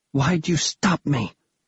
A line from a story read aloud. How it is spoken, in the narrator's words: Bastille hissed